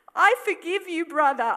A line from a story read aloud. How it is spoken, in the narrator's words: I cried